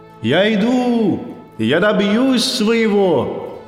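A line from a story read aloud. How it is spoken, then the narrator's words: Shouted. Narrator (Russian): крикнул в темноту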